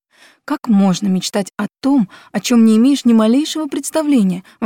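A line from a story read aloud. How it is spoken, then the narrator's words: Exclaiming spoon. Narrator (Russian): воскликнула мельхиоровая ложка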